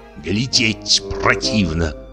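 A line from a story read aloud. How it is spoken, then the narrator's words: Muttering. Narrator (Russian): бормотал он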